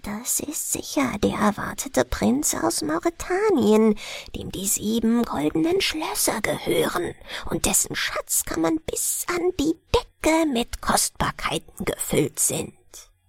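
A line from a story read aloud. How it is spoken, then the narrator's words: Whispering. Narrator (German): Untereinander aber flüsterten sie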